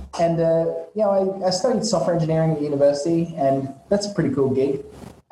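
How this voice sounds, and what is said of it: Australian accent. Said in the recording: “you might have guessed from my accent that it's not too Vietnamese sounding. I'm actually originally from Australia”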